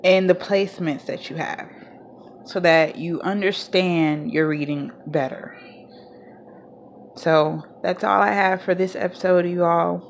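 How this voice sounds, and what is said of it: Southern US country accent. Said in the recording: “I sound so country.”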